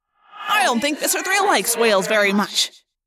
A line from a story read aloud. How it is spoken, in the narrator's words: Marco yelled